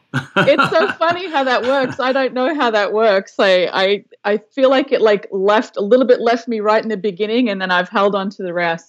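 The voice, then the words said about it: Australian accent, slight North American influence. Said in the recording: “you maintained keeping your Australian accent. I could tell a little bit of you know, the States and the Canadians got into you a little bit, but you still got it going”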